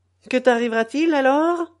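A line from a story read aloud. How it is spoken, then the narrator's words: Sneering question. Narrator (French): me demandait-il en ricanant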